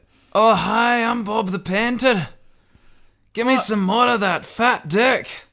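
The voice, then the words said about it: Character voice with unplaceable mixed accent. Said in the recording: “What kind of accent is that? ... It's Bob the Painter's accent. He's lived in a lot of different places, so, you know, it's hard to pick up on one particular place.”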